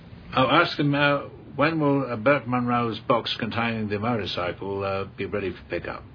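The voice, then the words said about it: Strong foreign accent, hard to understand. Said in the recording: “They'll never get my accent.”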